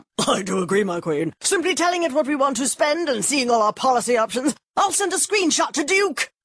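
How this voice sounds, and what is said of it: Posh royal-family character voice. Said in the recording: “my impression of a tech-savvy royal family”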